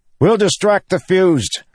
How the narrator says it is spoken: Kaladin shouted to Adolin

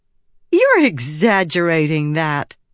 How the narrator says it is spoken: Shallan said, though she couldn't help laughing

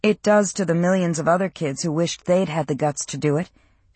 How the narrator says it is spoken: she said flatly

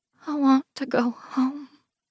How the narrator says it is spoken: she whispers

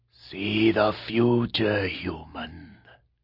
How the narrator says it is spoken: the monster rasped, eyes bright with hate

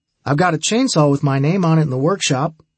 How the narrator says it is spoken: Milo told us happily

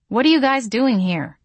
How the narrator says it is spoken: I asked, my tone not exactly welcoming

